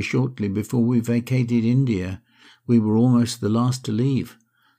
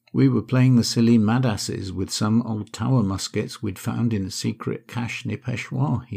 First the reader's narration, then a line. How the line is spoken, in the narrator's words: he said